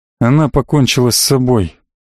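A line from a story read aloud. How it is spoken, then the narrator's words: Gloomy. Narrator (Russian): мрачно сказал Маркус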